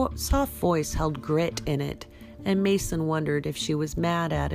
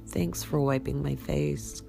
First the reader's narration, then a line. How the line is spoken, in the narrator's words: said weakly